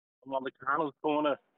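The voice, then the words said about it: Arnold impression. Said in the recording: “He's doing his Arnold impression.”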